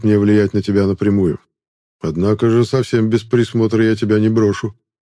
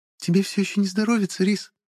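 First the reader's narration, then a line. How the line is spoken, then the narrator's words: Tender cooing voice. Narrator (Russian): проворковал над самым ухом уже знакомый нежный голос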